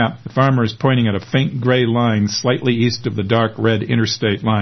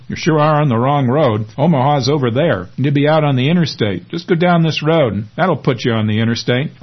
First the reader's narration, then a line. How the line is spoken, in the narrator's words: laughs the farmer